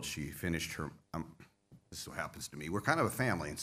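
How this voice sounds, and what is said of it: Choked-up, emotional voice. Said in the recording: “I got a little choked up. I still get a little choked up ... I get a little emotional”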